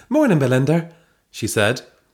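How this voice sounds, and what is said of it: Put-on Irish accent. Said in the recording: “Why have you gone Irish? ... this is your best accent”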